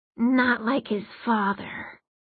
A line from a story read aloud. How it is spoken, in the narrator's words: one said, the words as raspy as sandpaper